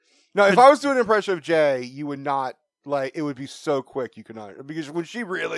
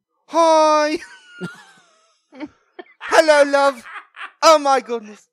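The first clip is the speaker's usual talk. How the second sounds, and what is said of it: Put-on Australian accent. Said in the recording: “Such a bad voice ... gay Australian voice ... That's just an Australian voice ... Australian accent”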